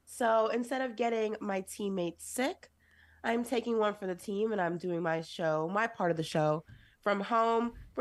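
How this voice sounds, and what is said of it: Voice sounds sick, cold. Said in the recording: “if you cannot hear by my voice, I caught a cold.”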